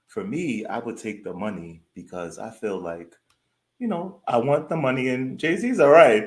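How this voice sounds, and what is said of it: Smooth New York accent. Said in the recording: “my smooth, attractive New York accent”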